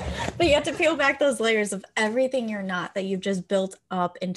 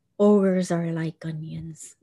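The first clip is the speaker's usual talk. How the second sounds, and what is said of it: A terrible impression. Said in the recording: “That was a terrible impression.”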